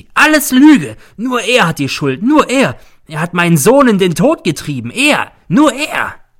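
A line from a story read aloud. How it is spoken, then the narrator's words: Shrieking. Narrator (German): kreischt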